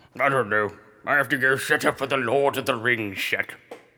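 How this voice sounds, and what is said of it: Gandalf character voice, cavernous. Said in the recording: “Gandalf just came over here to say hi ... every time I talk, my voice sounds like this ... Like you're under the mountain.”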